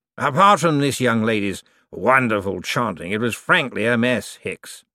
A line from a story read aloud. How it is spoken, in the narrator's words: said sharply